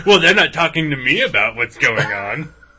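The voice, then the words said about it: Impression of Bill Willingham. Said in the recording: “that's a pretty good impression of Bill Willingham.”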